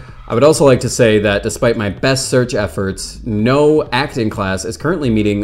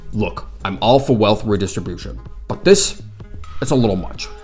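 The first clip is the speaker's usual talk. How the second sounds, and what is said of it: Bernie Sanders impression. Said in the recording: “I would like to formally apologize for my Bernie Sanders impression.”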